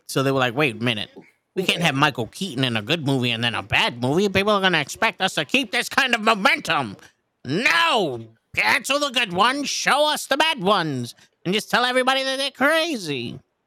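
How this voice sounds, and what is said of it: Impersonates a film studio executive. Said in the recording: “That's my impersonation of somebody that works in the... Fucking DC.”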